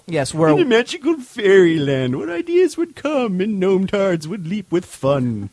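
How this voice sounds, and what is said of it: Sarcastic mock-whimsical tone. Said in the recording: “I'm being sarcastic.”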